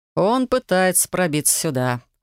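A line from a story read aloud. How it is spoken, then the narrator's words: Snorting. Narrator (Russian): хмыкнул Райер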